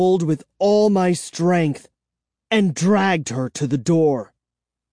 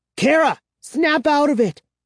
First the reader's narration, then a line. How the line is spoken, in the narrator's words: I cried